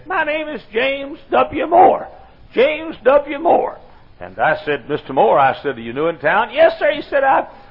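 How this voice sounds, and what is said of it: Squeaky old man's voice. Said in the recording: “In a squeaky old voice, he said”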